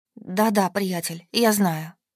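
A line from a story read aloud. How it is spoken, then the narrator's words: Painful rasp. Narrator (Russian): прохрипела, чувствуя, как звуки обдирают горло, словно стекло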